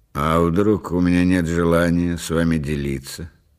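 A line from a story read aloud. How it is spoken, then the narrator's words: Calm inquiry. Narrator (Russian): спокойно осведомился Рейзнер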